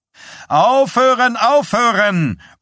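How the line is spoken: Male roar. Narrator (German): brüllte er

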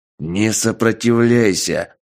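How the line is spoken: Stern command. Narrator (Russian): приказал он строгим голосом

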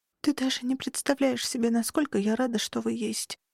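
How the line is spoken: Whisper. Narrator (Russian): прошептала

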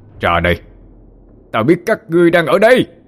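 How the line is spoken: Echoing roar. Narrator (Vietnamese): Linh Miêu miệng gầm vang

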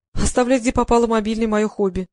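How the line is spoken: Laughing. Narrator (Russian): засмеялась

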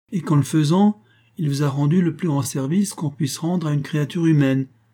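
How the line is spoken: Exclamation. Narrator (French): s'écria le troisième membre du petit groupe

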